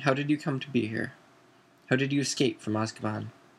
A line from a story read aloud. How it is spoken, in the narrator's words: Crouch took a deep, shuddering breath, and then began to speak in a flat, expressionless voice